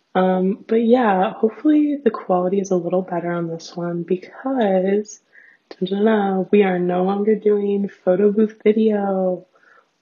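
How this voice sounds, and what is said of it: Raspy voice with heavy vocal fry. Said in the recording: “my like weird ass raspy voice ... I had a hot girl vocal fry ... I do have a really bad vocal fry”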